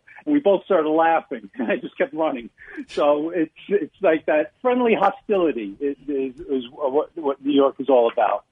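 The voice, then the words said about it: New York accent. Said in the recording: “that New York accent”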